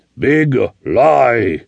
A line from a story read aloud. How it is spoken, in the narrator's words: the Indian thundered